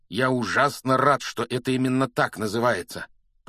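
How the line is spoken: Growling. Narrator (Russian): прорычал Рон

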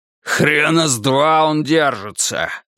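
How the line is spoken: Barked. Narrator (Russian): рявкнул Семёныч

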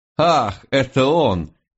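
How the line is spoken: Dangerously light giggle. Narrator (Russian): хихикнула она с опасной легкостью

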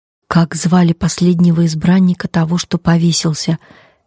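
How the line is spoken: Quiet question. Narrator (Russian): тихо спросил Гэнзи

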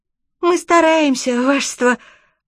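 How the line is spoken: Thin breathless squeak. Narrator (Russian): пропищал, задыхаясь, тоненький голосок

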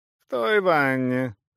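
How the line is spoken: Indifferent giant woman. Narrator (Russian): равнодушным голосом ответила гигантская дама

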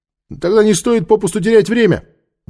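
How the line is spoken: Shouted order. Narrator (Russian): крикнул командиру отряда колесниц

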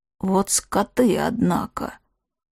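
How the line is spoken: Ragged sigh. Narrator (Russian): Ивга прерывисто вздохнула

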